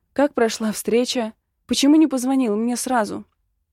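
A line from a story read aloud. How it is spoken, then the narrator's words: Drawn out, loud sob. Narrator (Russian): громко всхлипываю и протягиваю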